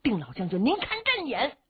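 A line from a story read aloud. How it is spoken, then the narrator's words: Soldiers shouting. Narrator (Chinese): 手下兵将喊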